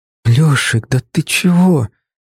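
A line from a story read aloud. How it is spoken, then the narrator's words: Breathed out. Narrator (Russian): выдохнула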